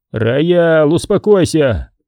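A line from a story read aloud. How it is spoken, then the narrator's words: Shout. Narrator (Russian): крикнул Боди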